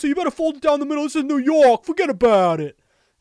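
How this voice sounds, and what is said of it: Put-on New York accent. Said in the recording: “my New York impression as a Bostonian”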